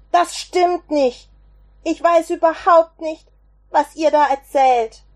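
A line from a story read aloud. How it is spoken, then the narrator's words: Shouting. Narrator (German): schrie er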